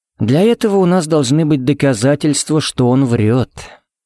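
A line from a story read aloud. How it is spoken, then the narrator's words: Gentle reply. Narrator (Russian): мягко ответил ей Джаред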